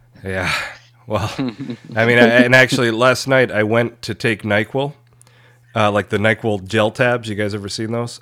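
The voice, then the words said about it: Rough, sick-sounding voice. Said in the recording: “My voice is probably a little bit terrible. I'm pretty under the weather... You sound so sad”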